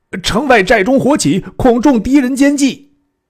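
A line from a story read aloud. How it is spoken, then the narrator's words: Shouting. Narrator (Chinese): 背后卫兵叫曰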